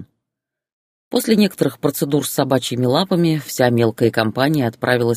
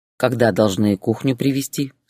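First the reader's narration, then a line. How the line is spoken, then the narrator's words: Plain question. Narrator (Russian): спросил он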